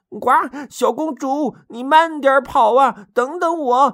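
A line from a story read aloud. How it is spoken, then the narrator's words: Muttering while running. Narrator (Chinese): 边跑边嘟囔着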